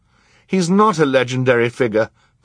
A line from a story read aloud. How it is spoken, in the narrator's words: Violet said indignantly